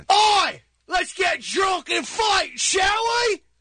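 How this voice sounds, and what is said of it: Loud, yelled put-on Cockney accent. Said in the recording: “Cockney, a Cockney accent from the East End of London. A Cockney accent. ... Why did you just yell it? ... These Cockney guys are loud.”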